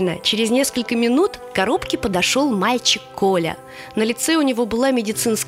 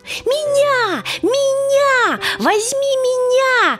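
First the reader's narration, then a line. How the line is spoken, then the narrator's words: Shouting animals. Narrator (Russian): закричали звери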